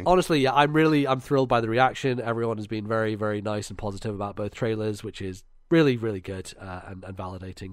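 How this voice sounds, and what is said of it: Tired, strained voice. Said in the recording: “I don't know why my voice is going like this ... I'm fucking tired.”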